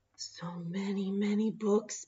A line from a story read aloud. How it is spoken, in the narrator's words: Bear whispered